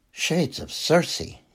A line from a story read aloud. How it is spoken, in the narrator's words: he muttered